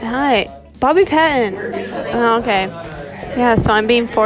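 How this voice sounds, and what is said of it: Usual voice. Nothing is said of it.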